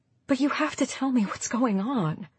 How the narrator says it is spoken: she whispered

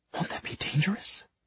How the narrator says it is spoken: Maris gasped and said in a hushed voice

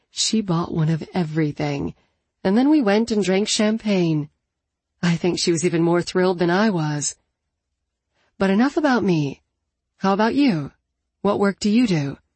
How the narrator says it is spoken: She laughed softly and added

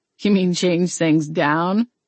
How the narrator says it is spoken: Garrett laughed

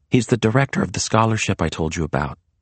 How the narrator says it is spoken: Maria whispered back

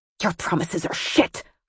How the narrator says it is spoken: Harley hissed

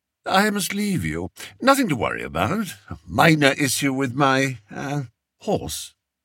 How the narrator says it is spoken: said Spittleworth smoothly

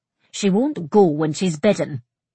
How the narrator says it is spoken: Rona grumbled

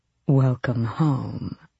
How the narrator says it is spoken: Aerobin purred

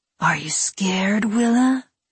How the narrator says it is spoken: Gredek whispered into her face

